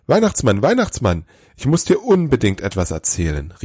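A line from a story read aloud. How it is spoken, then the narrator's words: Excited call. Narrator (German): rief er aufgeregt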